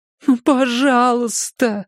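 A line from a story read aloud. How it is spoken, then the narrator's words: Pleading. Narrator (Russian): взмолилась она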